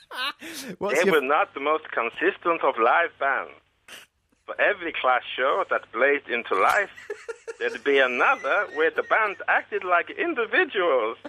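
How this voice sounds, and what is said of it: Germanic or Eastern European accent. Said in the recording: “You could be in films with that accent. You could play like a Polish gangster or... Is that supposed to be Polish? It's Germanic. It is Eastern European, right?”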